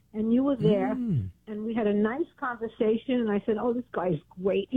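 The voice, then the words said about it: Brooklyn accent. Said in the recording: “Sounds like you're from Brooklyn.”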